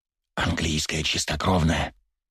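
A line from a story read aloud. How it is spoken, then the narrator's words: Whisper in the ear. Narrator (Russian): прошептал мне на ухо Анненков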